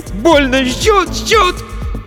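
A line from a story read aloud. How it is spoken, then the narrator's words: Screaming. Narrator (Russian): Закричал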